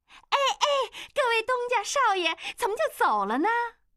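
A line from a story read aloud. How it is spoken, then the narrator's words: Madam calling out. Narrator (Chinese): 老鸨子跑出来喊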